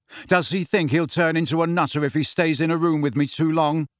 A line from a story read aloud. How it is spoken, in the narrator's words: asked Harry loudly